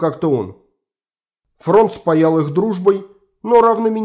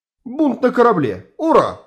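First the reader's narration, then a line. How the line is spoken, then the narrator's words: Exclaiming. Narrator (Russian): воскликнул красавчик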